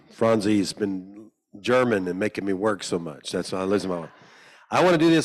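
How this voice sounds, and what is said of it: Slightly hoarse, rusty voice. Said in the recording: “My voice is a little bit rust.”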